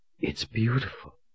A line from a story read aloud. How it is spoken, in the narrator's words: she whispered in astonishment